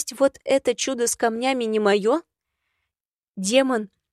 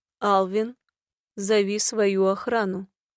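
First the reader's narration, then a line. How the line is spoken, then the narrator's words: Sighing. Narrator (Russian): вздохнула я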